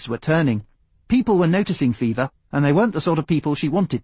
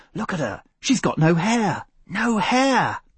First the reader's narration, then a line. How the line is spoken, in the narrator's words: she heard them muttering